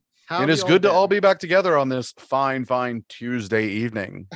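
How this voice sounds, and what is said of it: Radio announcer voice. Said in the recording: “you've got your radio voice on... radio announcer”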